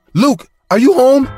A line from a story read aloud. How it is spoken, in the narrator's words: she screamed at me saying